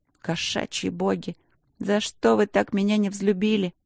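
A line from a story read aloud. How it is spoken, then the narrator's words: Exasperated pleading. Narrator (Russian): Мысленно застонав, я взмолилась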